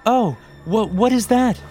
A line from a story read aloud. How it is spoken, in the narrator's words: She stammered